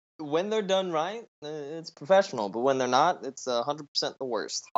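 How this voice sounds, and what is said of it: Raspy, sick-sounding voice. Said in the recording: “I'm actually a bit sick ... my voice is raspy.”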